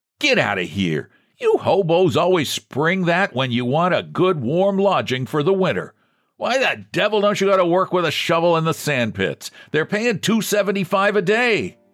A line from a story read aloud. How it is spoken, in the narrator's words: The keeper shouted